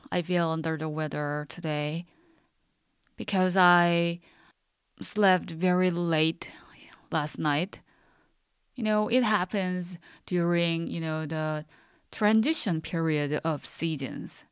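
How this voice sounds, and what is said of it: Calm, low, unwell-sounding voice. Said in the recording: “my voice is kind of very calm or very low because today I don't feel well”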